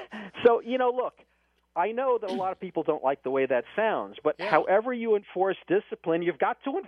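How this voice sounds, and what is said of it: Usual voice. Nothing is said of it.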